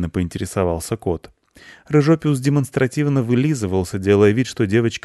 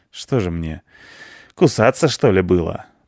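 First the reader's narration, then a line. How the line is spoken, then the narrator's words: Feigned sigh. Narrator (Russian): притворно вздохнул Рыжопиус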